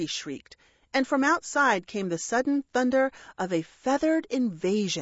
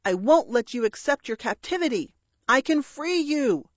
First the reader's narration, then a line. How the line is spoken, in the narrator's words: Gilbert shouted